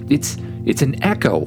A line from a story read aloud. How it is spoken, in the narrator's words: Oliver exclaimed